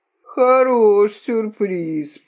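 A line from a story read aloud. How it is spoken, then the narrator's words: Rooster groaning. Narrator (Russian): простонал петух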